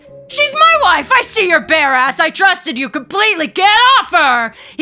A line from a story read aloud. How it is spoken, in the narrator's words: He continues to shout as he scrambles down